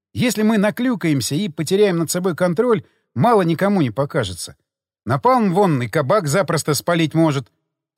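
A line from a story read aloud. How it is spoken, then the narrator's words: Sigh. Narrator (Russian): вздохнул я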